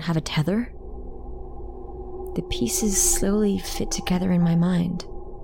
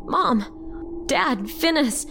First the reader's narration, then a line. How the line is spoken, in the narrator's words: I shouted